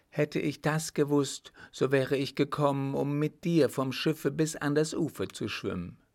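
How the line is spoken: Called out. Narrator (German): rief

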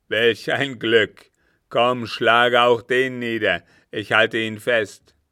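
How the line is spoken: Calling out. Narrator (German): rief er

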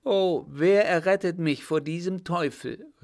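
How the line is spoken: Woman calling out. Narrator (German): rief sie

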